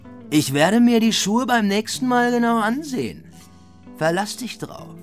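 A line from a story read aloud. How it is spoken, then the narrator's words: Caretaker calling after someone. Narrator (German): ruft der Hausmeister hinter ihm her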